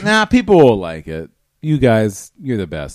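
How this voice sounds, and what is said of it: Drunk-sounding speech. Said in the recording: “I'm so drunk at this point”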